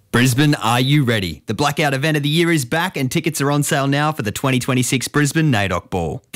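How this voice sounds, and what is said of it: Exaggerated radio announcer voice. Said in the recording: “do the radio voice”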